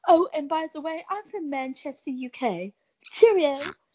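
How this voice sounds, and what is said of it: Put-on British accent. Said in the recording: “you didn't bring out the British accent”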